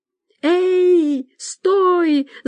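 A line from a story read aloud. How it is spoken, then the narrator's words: Yelled. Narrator (Russian): завопил Иван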